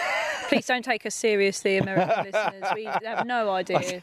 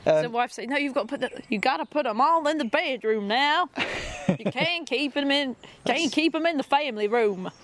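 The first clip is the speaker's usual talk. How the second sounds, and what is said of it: Put-on Texan accent. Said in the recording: “That's pretty good, yeah. Is that Texan? ... That was Texan. ... that was a Texan accent, yeah.”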